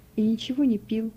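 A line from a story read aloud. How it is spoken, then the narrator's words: Barely audible whisper. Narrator (Russian): едва слышно прошептал Иоганн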